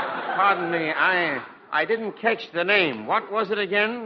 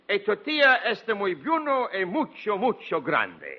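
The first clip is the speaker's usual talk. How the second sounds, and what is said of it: Comically put-on foreign accent. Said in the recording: “I'm laughing at your accent.”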